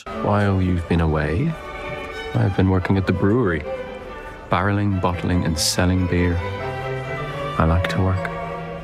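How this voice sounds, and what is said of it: English actor's convincing Irish accent. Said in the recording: “a very English actor playing Edward Guinness. Here's his accent. ... That's a 10-10 accent. That's as good as Daisy Edgar Jones and Normal People”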